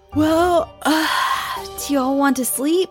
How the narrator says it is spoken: Sammy yawned to the gang

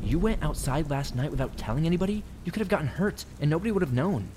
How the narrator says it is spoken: Ashley exclaimed

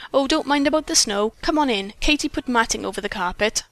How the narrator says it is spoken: Mary sang out

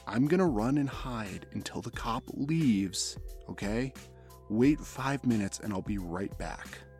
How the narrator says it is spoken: I whispered

